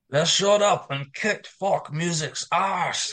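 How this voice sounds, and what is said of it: Attempted Scottish accent. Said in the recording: “I can't do a Scottish accent”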